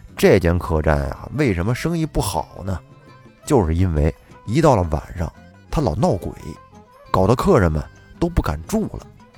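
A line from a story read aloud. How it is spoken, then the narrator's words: Sighing lament. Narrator (Chinese): 好朋友王伯通也是唉声叹气地说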